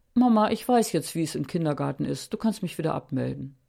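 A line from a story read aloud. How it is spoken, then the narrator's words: Calm child's voice. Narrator (German): Moritz ganz ruhig sagte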